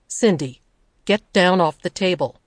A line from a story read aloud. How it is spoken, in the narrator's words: to say in a firm voice